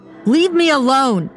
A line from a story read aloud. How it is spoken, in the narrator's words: mother shouted